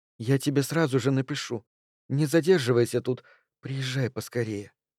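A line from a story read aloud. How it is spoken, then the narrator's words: Barely audible whisper. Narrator (Russian): Моника чуть слышно шепнула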